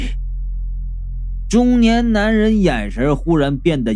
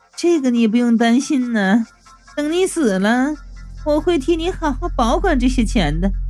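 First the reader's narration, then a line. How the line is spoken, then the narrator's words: Young woman, laughing. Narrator (Chinese): 年轻女人笑着就说道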